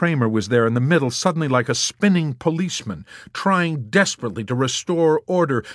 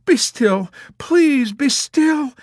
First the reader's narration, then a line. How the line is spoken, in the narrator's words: she urged uselessly through her massive sobs